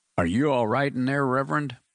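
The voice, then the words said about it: Deep voice. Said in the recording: “asked a deep voice from the other side”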